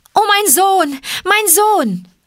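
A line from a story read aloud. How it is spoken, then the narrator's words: Called out. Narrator (German): rief sie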